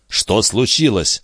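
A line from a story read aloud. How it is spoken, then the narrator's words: Plain. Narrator (Russian): спросил Фернандо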